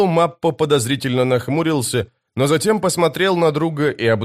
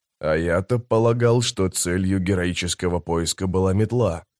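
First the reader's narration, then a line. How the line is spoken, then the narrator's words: Muttered. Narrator (Russian): пробормотал Трель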